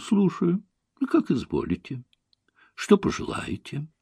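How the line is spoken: Calm reply. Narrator (Russian): Наташа спокойно отвечала

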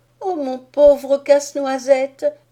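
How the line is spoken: Sobbing cry. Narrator (French): s'écria-t-elle en sanglotant

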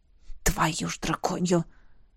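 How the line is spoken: Quiet eloquent curse. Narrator (Russian): выргулся я тихо, но очень красноречиво

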